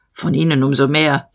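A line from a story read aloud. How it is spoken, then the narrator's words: Growling. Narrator (German): der Major knurrte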